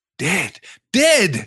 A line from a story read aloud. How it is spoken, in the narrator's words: shouted the dwarves